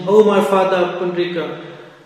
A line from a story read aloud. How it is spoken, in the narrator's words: the Lord lamented loudly, for only he could understand the greatness of such a pure Vaishnava